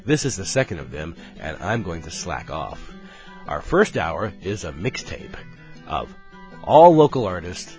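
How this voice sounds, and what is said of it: Hoarse, worn-out voice. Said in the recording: “my voice is completely shot”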